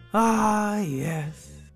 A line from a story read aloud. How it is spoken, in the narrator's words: said Hungry Bungry wistfully